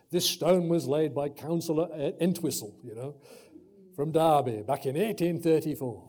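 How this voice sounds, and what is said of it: Poorly done put-on accent. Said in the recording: “Terrible accent. ... Should have practiced that one.”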